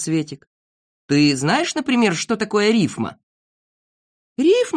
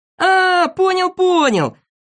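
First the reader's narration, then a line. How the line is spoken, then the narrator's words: Shouting. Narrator (Russian): закричал Незнайка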